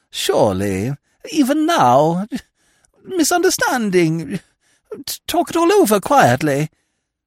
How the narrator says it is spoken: moaned Lady Constance

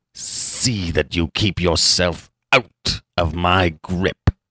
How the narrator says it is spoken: snarled

